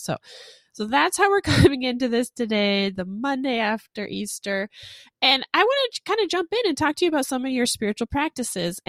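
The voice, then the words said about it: Congested voice from a cold. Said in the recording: “I'm sure listeners can tell I have a cold, like I'm sick.”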